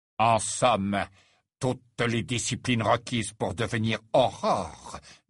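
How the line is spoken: Said with faint sneer. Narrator (French): dit Rogue, avec un imperceptible ricanement

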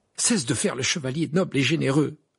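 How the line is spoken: Irritated retort. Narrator (French): répliqua Harry d'un ton irrité

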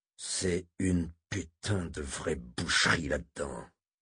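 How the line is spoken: Growled. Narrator (French): gronda Moram

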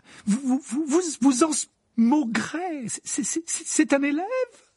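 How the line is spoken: Shrill cry. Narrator (French): s'écria le professeur McGonagall d'une voix suraiguë

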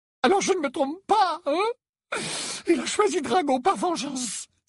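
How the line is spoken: Choked exclamation. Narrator (French): s'écria Narcissa d'une voix étranglée

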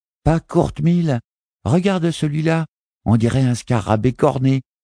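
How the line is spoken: Young girl exclaiming. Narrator (French): s'exclamait une petite fille à peine moins âgée que Jack

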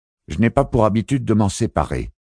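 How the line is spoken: Sharp retort. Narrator (French): rétorqua vivement Fracistebog

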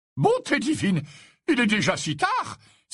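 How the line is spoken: Exclaimed. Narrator (French): s'exclama Slughorn

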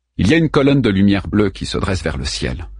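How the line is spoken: Plain. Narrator (French): dit-il finalement

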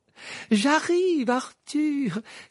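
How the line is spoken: Exclaiming. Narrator (French): s'écria Madame Wesley en se précipitant hors de la pièce

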